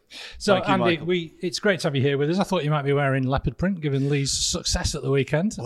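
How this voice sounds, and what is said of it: Usual voice. Nothing is said of it.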